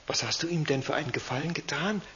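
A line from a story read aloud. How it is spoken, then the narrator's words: Whispered question. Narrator (German): fragte Christina flüsternd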